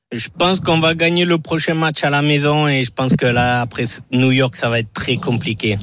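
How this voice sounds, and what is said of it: Strong regional French accent. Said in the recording (French): “Un bon accent”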